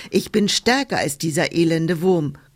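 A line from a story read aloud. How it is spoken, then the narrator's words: Rhinoceros calling out. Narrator (German): rief da das Nashorn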